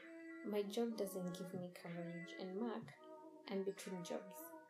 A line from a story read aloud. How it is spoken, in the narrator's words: Mark said